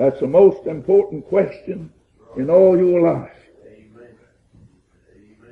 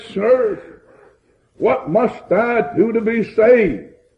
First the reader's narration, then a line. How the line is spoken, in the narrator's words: this jailer cried out and said